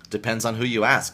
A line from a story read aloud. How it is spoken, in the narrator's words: he said